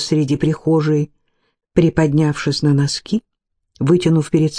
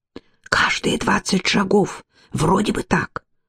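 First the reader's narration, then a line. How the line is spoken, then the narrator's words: Whispered. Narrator (Russian): прошептал он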